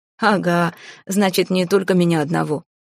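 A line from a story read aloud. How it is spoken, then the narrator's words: Laughing. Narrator (Russian): рассмеялся Албрит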